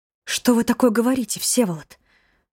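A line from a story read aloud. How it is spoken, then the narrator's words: Frightened. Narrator (Russian): Испуганно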